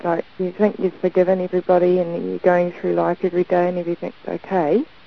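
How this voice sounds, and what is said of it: Accent that is hard to understand. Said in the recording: “I'm having a little bit of hard time understanding your accent.”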